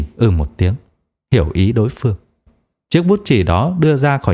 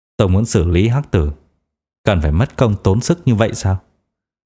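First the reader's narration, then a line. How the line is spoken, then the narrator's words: Smiling retort. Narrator (Vietnamese): Đỗ Minh Cường mỉm cười hỏi ngược lại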